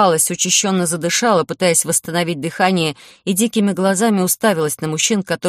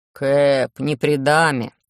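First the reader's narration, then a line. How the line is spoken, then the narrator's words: Displeased deep bass. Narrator (Russian): тот, кто меня поймал, недовольно пробасил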